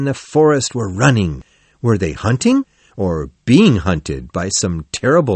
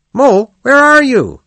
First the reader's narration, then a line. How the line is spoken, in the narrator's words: He called out several times